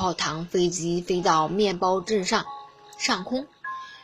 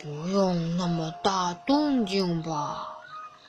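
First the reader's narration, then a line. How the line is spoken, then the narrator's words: Inward muttering. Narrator (Chinese): 芝麻探长心里嘀咕了一句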